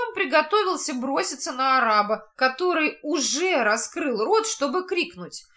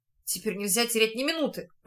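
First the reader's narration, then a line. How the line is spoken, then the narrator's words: Whisper. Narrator (Russian): прошептал Луш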